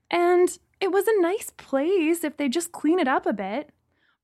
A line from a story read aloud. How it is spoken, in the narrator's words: I whined